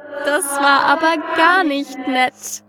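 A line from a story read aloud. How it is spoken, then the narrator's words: Amused, wicked giggle. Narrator (German): kicherte das Ding belustigt und böse zugleich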